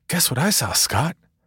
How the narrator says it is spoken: giddily exclaimed

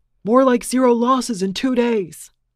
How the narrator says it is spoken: he screamed

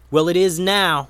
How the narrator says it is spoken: said Ray

